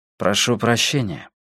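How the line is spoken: Quiet. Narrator (Russian): произнес негромко

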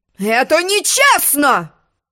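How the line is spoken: Sudden roar, unicorn. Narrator (Russian): взревел вдруг единорог

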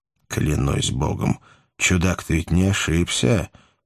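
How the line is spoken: Mumble. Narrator (Russian): пробормотал Кап

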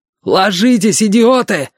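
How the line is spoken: Yelling. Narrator (Russian): заорал отец

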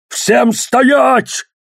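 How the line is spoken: Barking. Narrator (Russian): рявкнул он

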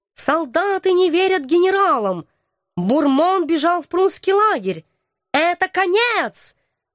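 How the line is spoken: Wailing yell. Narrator (Russian): вопил он

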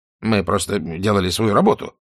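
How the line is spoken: Muttered. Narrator (Russian): пробормотал Кроули

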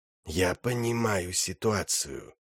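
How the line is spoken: Hissed. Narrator (Russian): прошипел Брукалак

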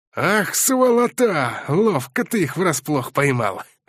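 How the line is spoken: Amused snort. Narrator (Russian): хмыкнул привратник

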